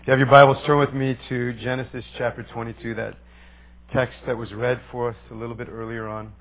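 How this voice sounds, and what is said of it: Hoarse, coarse voice. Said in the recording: “I preached for almost an hour this morning, so my voice is a little bit coarse”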